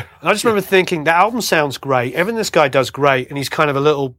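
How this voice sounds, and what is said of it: Nice-sounding UK English accent. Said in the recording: “I've got a nice accent because I grew up in a nice part of the world. ... Of the UK”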